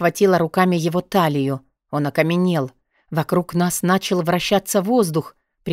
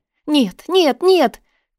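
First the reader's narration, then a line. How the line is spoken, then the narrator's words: Cry out. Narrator (Russian): вскрикнула я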